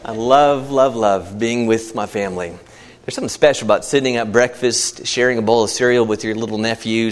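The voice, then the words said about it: Slightly out of breath. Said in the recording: “I'm a little out of breath because of how he leads”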